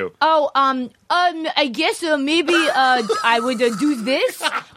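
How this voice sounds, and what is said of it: Mixed Jersey, Ukrainian, Japanese accent. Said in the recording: “It sounded like Jersey and the Ukraine. ... All of them together. ... A little bit of Japanese. ... And then it just faded away.”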